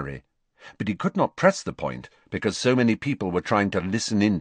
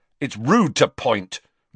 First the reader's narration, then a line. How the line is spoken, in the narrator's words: Ron snapped